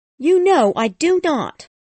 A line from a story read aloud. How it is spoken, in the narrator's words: replied Miss Havisham sharply